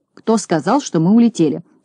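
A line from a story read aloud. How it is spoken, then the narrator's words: Stern question. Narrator (Russian): строго спросил Знайка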